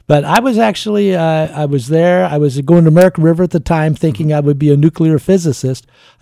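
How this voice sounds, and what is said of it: Slight Southern twang. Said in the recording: “my voice got kind of have a little oaky twang ... because I was born in the South ... Mama from Kentucky, Daddy from Tennessee, they kind of taught me how to talk”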